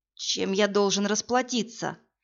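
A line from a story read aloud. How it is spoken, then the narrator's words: Hoarse male question. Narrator (Russian): хрипло спросил мужчина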